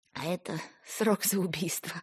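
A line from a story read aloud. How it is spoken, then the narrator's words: Hoarse giggle, female. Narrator (Russian): Хрипло хихикнула она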